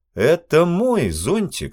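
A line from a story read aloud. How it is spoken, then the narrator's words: Stern. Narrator (Russian): сказал строго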